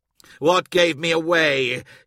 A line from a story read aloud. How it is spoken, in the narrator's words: he growled